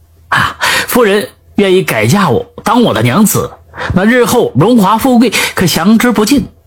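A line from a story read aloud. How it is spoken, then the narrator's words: Young man laughing. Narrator (Chinese): 少年笑道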